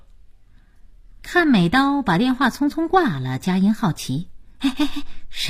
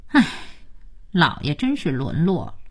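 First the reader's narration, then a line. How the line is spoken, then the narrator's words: Sighing. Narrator (Chinese): 可佳期却叹气说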